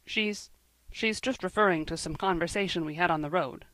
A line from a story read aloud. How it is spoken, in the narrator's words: said Matthew hastily